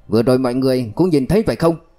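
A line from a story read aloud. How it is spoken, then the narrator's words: Angry question. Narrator (Vietnamese): Ánh mắt của đội trưởng có vẻ tức giận, hỏi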